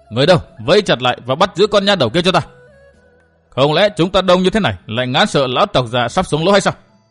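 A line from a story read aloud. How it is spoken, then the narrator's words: Shout. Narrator (Vietnamese): Miệng thì hắn quát như vậy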